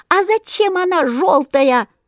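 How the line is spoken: Squeaking chorus. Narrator (Russian): запищали разом все воробьи

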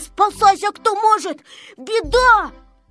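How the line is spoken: Shouting. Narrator (Russian): Незнайка кричал

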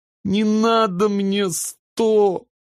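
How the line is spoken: Sobbing little sister. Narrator (Russian): всхлипнула сестренка

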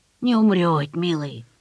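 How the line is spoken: Toothless old mumble. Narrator (Russian): прошамкала Анисья

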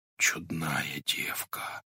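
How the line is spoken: Blacksmith's whisper. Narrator (Russian): прошептал вошедший тихо кузнец

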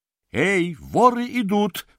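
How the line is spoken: Shouting. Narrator (Russian): закричал я Фингалу

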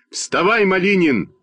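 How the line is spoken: Shouting. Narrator (Russian): закричал я на Костю

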